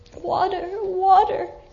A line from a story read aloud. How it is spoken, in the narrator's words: he called faintly